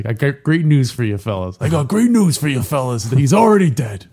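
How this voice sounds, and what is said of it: Older Michael Corleone impression. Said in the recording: “my Michael Corleone impression ... It's more an older Michael Corleone.”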